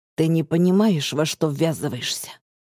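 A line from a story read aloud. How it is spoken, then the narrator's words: Hoarse, low, barely restrained. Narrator (Russian): хрипло говорит он, голос низкий, едва сдержанный, будто внутри него буря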